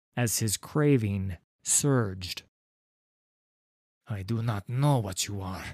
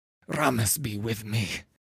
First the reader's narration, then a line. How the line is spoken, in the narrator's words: hissed Niamh